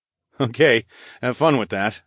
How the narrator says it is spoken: I chuckled

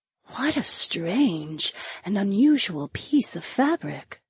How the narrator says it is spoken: the imp woman whispered

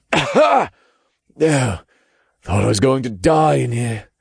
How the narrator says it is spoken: he admitted in a raspy, dry voice

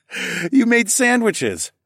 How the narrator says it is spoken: I laughed

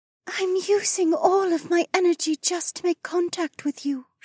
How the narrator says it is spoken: said weakly

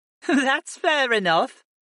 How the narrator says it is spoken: Maddie laughed

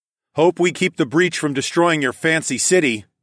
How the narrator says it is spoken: I called out

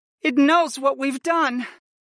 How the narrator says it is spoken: sighed

